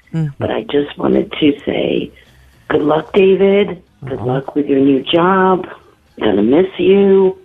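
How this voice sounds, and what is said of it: Hoarse voice from a cold. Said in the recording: “I lost my voice. I have a little cold”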